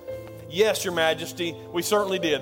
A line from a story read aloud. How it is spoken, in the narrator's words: replied